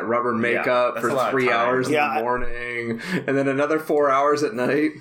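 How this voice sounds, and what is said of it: Usual voice. Nothing is said of it.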